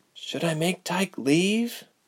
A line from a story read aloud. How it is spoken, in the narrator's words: Ilse asked softly, afraid of the answer